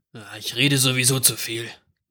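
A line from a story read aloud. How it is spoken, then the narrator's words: Murmuring. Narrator (German): murmelte er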